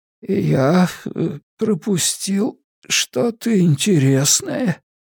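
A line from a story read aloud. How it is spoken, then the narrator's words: Hoarse whisper. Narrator (Russian): осведомился он хриплым шепотом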